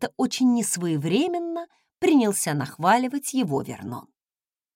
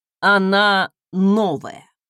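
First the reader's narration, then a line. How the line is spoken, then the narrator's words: Dry explanation. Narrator (Russian): сухо пояснил Фостен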